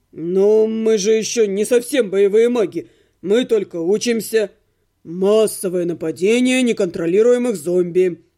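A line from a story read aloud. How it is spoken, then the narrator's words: Tragic proclamation. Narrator (Russian): Трагическим тоном провозгласил Отто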